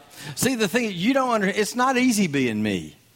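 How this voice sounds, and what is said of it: Strong Southern American accent. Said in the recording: “I'm definitely not from around here ... you're not from around here, are you? ... I do apologize for my accent ... Those Yankees thought Gomer Pyle had come to town ... Did you just say ain't?”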